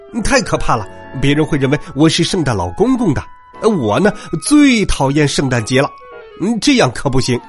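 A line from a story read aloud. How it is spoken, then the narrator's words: Shouting. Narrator (Chinese): 他大叫起来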